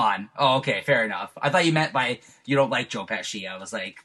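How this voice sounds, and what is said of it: Usual voice. Nothing is said of it.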